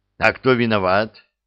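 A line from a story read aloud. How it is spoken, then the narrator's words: Angry question. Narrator (Russian): спросил командир и сердито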